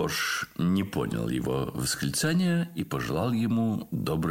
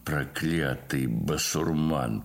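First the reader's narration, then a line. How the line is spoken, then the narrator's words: Grumbling. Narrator (Russian): проворчал Спицын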